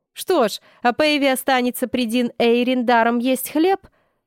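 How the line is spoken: Laughing. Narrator (Russian): рассмеялся Фарлей

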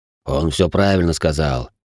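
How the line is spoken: Deep bass voice. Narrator (Russian): пробасил слон

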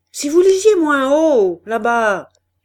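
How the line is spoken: Shouting. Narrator (French): cria le caissier

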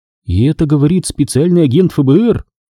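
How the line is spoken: Exclamation. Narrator (Russian): воскликнула она

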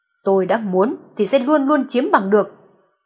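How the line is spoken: Through gritted teeth. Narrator (Vietnamese): Clarence nghiến răng nghiến lợi gằn giọng

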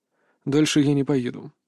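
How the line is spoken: Slightly tense voice. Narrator (Russian): произнес Рейк слегка напряженным голосом

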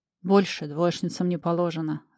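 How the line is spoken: Laughing. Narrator (Russian): рассмеялся следователь

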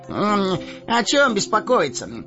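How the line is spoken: Carefree exclamation. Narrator (Russian): беспечно воскликнул Мэри

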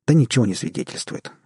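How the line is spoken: Sharp objection. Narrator (Russian): резко возразила Джанет

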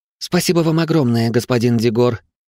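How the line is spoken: Sincere exclamation, woman. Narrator (Russian): искренне воскликнула женщина

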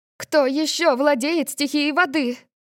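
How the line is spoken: Panicked cry. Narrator (Russian): Маргарет в панике вскрикнула

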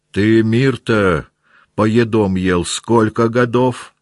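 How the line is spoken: Shouting. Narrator (Russian): кричал на него Карп

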